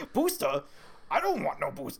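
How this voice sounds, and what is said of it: Bad imitation of another person's accent. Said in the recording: “I love your Arnold accent. That's the worst Arnold accent I've ever heard in my life.”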